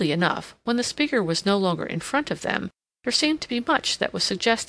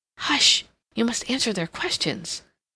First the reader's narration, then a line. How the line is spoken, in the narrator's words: Catherine whispered, desiring at all costs to keep him quiet